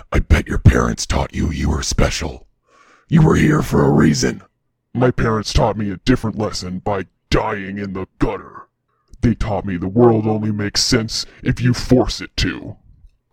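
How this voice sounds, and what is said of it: Imitated Batman character voice. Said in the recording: “you have to do it in his voice ... the Batman voice”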